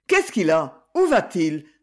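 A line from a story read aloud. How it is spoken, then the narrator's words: Exclaimed. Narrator (French): s'exclama Madame de Praz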